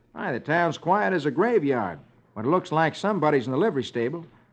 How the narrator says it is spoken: Roy exclaims

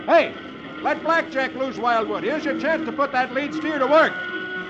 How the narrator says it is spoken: Roy shouts to Wildwood

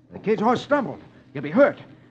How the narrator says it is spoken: Roy exclaims

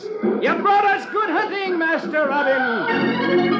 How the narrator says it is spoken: one of them shouts

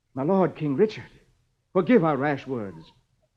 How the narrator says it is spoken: Robin exclaims

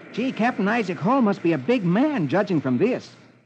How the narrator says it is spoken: he exclaims

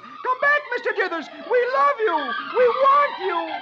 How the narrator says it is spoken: Dagwood yells

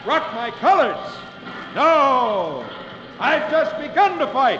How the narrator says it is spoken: with flashing eyes, John Paul Jones shouts back

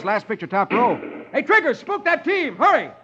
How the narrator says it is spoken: yells

